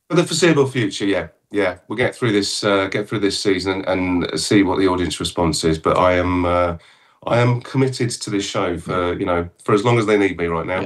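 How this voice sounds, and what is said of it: English accent. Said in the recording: “has not lost his English accent, having spent a while in the USA." Yeah, it's not going anywhere”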